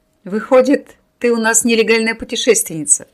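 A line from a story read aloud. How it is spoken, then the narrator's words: Laughing. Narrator (Russian): рассмеялся Семен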